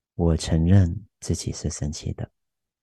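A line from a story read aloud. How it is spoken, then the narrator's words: Gentle, to oneself. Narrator (Chinese): 温柔的跟自己说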